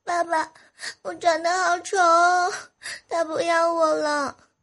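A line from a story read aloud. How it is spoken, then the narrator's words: Crying child shouting. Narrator (Chinese): 女儿呢一边哭啊一边喊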